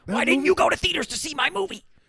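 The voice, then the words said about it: Imitates another person's voice. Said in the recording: “my Chris Nolan impersonation”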